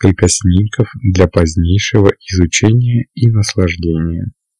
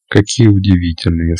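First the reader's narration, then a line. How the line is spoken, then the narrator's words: Plain. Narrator (Russian): сказала она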